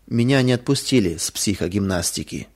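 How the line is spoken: Sad, lifeless voice. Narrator (Russian): Лиля пришла домой грустная и, заглянув на кухню, потухшим голосом сказала

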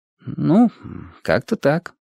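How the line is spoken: Thoughtful drawl. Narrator (Russian): протянул задумчиво

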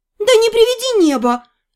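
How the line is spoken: Frightened gasp. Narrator (Russian): испуганно ахнула я

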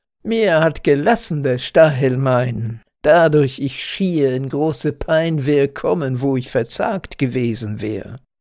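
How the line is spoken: Laughing speech. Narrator (German): sprach aus lachendem Mund

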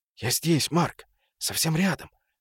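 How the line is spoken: Whisper. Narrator (Russian): шептал он

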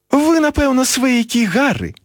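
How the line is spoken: Exclaiming. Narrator (Belarusian): усклікнула місіс Уізлі

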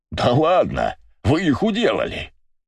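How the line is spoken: Blacksmith's pleased laughter. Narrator (Russian): Довольно расхохотался кузнец

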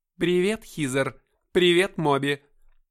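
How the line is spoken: Booming, smiling. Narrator (Russian): прогремел он, улыбаясь

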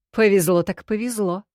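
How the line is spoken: Amused snort. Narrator (Russian): хмыкнул Таши

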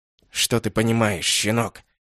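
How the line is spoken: Gritted. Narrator (Russian): процедил

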